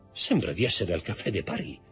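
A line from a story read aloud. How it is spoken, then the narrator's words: Murmured. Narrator (Italian): mormorò Danglars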